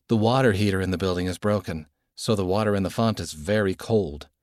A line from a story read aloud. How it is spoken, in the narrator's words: Dad said